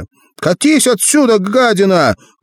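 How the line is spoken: Shouting. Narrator (Russian): крикнула Марина

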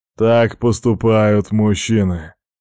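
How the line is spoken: Loud snort. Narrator (Russian): громко хмыкнул Тугур

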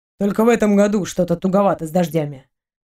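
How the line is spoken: Grumbling. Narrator (Russian): проворчал он

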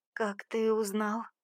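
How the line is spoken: Trembling, exhausted voice. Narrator (Russian): выдавила из себя дрожащим голосом, готовая без сил упасть на пол

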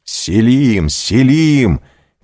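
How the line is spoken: Shouting. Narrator (Russian): кричал

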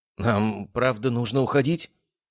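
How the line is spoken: Uncertain question. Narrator (Russian): неуверенно спросила Мари

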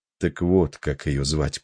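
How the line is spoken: Quiet. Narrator (Russian): произнес он тихо

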